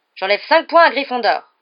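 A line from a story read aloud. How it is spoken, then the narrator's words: Curt sharp retort. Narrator (French): répliqua Percy d'un ton cassant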